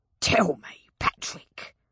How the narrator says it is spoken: Jack snarled

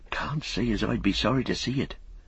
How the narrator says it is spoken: said Robin, lowering his voice

